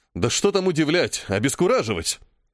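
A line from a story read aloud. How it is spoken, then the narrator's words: Exclaiming with delighted disbelief. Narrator (Russian): Со смесью восторга и неверия воскликнул Цезон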